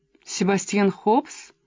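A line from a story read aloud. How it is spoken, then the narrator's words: Plain. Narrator (Russian): спросила она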